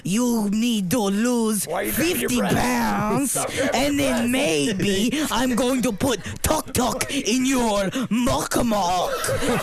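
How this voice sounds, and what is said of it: Put-on Asian accent impression. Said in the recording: “That was a great impression. ... Yeah, it was really good. ... I go right into Asian.”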